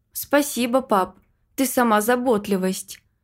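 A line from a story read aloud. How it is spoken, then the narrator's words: Wry, crooked-smile tone. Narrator (Russian): Криво улыбнулась я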